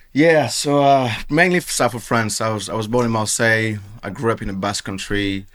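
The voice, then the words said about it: French accent. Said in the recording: “Obviously, I've got the French accent.”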